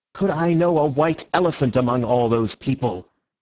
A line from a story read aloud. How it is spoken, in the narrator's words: answered Syme somewhat irritably